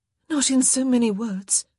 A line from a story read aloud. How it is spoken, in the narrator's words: she gasped